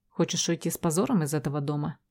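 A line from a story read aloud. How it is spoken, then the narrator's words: Quiet, muffled. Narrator (Russian): Говорит тихо, даже приглушенно, но лишь первую фразу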